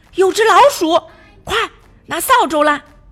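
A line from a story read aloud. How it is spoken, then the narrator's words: Woman shouting. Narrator (Chinese): 农场主的妻子大喊一声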